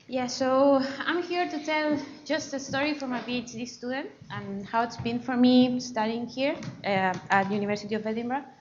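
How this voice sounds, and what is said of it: Chilean Spanish-accented English. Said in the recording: “as you see from my accent, I am not from UK. I come from Chile, so South America”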